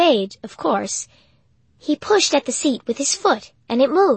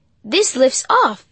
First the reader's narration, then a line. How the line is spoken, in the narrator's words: he exclaimed